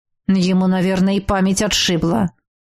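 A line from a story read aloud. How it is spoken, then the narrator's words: Man grumbling. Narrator (Russian): опять пробурчал мужчина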